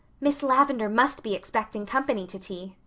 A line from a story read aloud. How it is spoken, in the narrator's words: she whispered